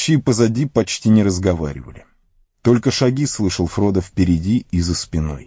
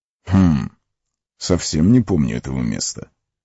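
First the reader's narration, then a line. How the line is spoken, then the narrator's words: Muttered. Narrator (Russian): пробормотал Гэндальф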